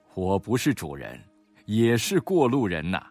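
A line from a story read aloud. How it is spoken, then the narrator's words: Old man, laughing. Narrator (Chinese): 老人才笑道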